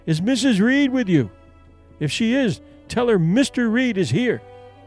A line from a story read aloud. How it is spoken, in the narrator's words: they called out